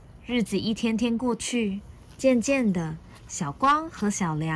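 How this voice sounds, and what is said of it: Usual voice. Nothing is said of it.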